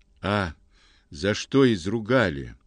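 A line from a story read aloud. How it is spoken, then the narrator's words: Dejected. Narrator (Russian): уныло говорит он мне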